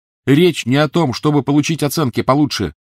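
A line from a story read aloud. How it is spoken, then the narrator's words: Shouting. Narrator (Russian): закричал на нее Гарри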